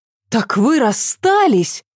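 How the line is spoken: Surprised exclamation. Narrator (Russian): воскликнула Ася удивленно

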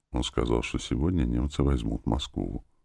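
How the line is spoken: Quiet. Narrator (Russian): сказал Витя тихо

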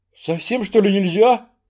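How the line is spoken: Trembling-voiced question. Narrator (Russian): дрогнувшим голосом спросил Кухарев

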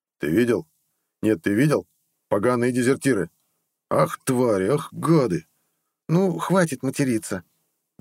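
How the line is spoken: Grumbled. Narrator (Russian): буркнула, видимо, в очередной раз Амела

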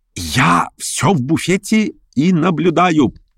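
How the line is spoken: Mock-guilty teasing whisper. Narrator (Russian): прошептал он с видом виноватого школьника, впрочем, нарочно подделанным, чтобы еще более ее раздразнить

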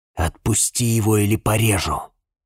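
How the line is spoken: Hissed in ear. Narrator (Russian): прошипел я ему в ухо

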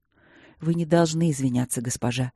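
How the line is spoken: Soft. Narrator (Russian): мягко произнес он

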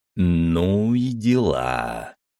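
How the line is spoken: Drawled. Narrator (Russian): протянул

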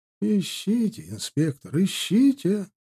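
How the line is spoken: Calm reply. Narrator (Russian): спокойно отозвался ученый

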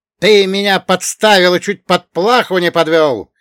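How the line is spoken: Yelling. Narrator (Russian): заорал ворвавшийся

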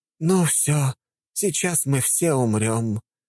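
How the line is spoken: Doomed woman sighing. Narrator (Russian): обреченно вздохнула дама

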